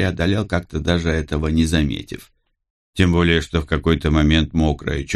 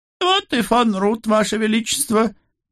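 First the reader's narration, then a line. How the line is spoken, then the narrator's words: Loud joyful announcement. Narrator (Russian): Радостно улыбаясь, громко сообщил Прим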